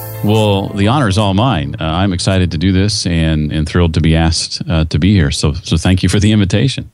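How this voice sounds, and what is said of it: Impressive radio-style speaking voice. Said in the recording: “God gave you a radio voice ... you've got such an incredible voice, man.”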